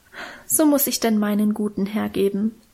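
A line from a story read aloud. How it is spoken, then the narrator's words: Sighing, self-moved. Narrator (German): seufzte Minchen und schien selber gerührt von ihrer Opferbereitschaft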